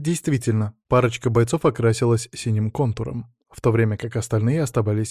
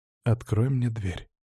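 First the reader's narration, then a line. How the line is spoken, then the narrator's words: Quiet. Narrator (Russian): негромко произнес я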